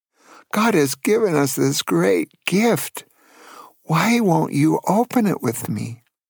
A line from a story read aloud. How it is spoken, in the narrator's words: Then she sobbed and said something like